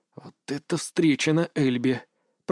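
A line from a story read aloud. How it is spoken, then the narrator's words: Whisper. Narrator (Russian): прошептал я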